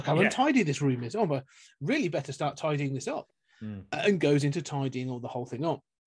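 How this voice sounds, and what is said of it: Faux English accent, C-3PO-like. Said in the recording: “this sort of faux English accent, sort of like as a kid ... almost like C-3PO”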